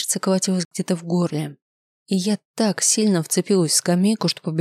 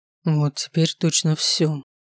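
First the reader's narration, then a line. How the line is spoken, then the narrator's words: Dejected voice. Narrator (Russian): упавшим голосом произнес он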